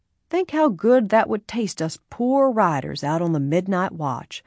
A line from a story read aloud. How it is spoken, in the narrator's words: Bud said in his soft drawl